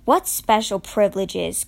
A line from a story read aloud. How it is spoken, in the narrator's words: Charlie said wearily